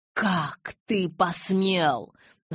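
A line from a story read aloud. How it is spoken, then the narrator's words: Growling. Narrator (Russian): зарычала я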